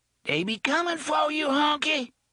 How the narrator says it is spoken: screeched

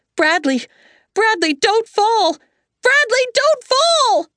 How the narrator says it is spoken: Margaret screaming

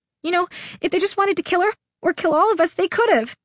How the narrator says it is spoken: Nudge said shakily

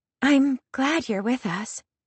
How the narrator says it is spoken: Meriden says in her sweet voice

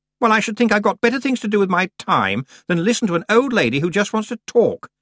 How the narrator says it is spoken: said Anna Grammer indignantly

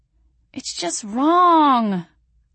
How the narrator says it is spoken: I whimpered

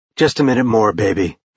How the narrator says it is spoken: he said, his voice rougher than he intended

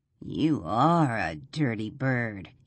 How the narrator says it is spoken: he rasps

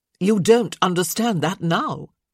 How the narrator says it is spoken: Violet said sharply

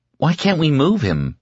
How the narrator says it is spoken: Fran asked desperately

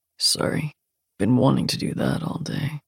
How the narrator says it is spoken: he says in a low voice

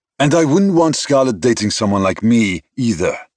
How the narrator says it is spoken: he snapped

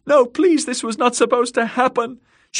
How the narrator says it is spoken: She could hear Myrcella shrieking too, her voice shrill with fear

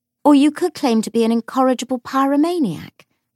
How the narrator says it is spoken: said Lucy cheerfully

